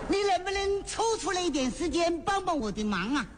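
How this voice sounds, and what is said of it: Southern Chinese accent. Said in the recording (Chinese): “听口音这位是南方人。”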